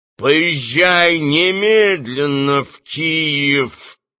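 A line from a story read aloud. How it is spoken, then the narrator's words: Through gritted teeth. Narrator (Russian): сквозь зубы сказал кот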